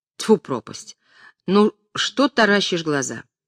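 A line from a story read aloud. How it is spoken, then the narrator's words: Annoyed. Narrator (Russian): с досадой сказал Остроухов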